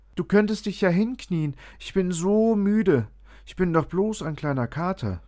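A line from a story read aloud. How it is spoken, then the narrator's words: Whining. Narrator (German): jammerte Findus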